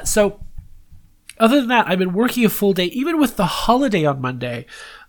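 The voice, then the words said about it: Congested, stuffy voice. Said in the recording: “I sound a little weird ... I'm a little congested today”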